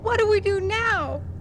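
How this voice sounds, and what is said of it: Small, squeaky voice. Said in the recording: “Squeaked Ted in a small voice.”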